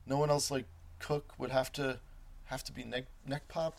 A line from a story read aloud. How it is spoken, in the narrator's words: stammering